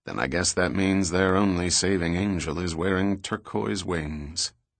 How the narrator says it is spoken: Softening his tone, he replied quietly

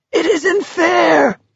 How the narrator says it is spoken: he screamed

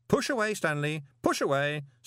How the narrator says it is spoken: said Moist cheerfully

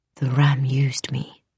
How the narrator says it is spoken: her mother whispered

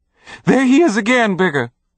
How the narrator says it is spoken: the woman screamed

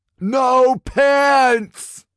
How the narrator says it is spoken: Tiggy shouted

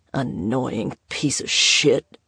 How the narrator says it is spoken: he muttered

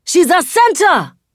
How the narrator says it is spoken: I yell

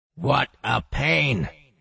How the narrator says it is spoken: Boxy grumbled internally

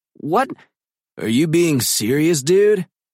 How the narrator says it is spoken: deep voice booms over the crowd and cuts her off

